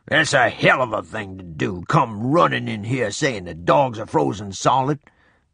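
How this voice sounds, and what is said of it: Deep, growling male voice. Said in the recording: “I heard a deep voice say ... The deep voice growled again.”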